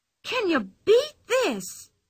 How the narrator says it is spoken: she cried suddenly

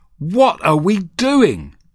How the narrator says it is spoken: I cried

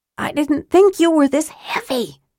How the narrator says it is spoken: Tika gasped

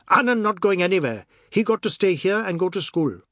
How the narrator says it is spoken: Biswas's serene mood, said sternly

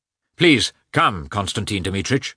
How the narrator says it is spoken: said he

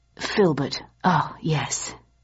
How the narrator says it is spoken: he murmured

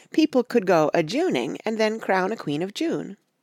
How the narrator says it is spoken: said Betsy eagerly

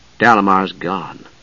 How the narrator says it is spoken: Palin murmured

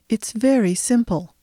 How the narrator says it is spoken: her voice said calmly

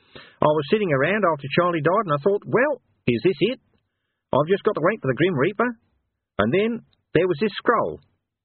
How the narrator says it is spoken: smiling sweetly

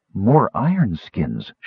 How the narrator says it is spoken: she breathed

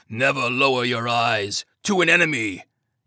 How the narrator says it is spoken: Tatsu leaned in and growled

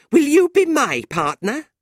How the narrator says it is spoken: Fanny said, angrily

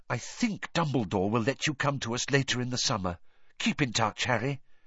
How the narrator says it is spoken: She whispered in his ear

